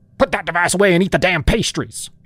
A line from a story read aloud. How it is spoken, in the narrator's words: barked